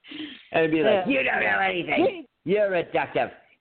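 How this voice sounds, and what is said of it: Imitates another person's voice. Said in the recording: “Good impression, Rhett, by the way. Very good impression.”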